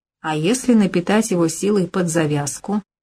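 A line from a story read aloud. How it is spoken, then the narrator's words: Businesslike tone. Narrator (Russian): деловым тоном уточнил кукольник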